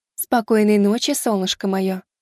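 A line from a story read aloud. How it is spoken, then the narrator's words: Tender cooing. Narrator (Russian): проворковала она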